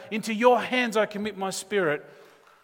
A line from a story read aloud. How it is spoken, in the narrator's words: speak loudly so that we could hear